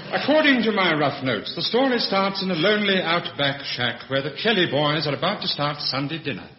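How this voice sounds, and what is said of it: Posh radio announcer voice. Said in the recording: “Brian Wilde with his posh radio voice”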